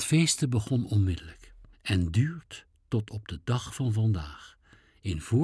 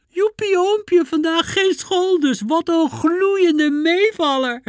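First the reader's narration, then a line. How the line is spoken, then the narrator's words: Shrieked. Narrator (Dutch): Zij gilde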